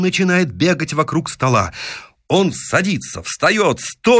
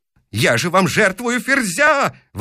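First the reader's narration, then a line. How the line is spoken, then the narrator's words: Yelling. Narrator (Russian): вопит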